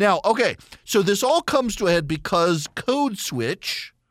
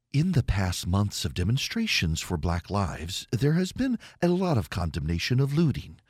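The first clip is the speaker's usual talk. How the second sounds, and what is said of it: NPR radio announcer voice. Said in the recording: “I have to use my NPR voice now.”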